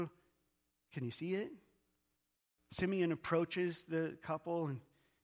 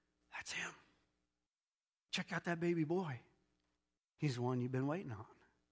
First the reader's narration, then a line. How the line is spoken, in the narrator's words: God had whispered in his ear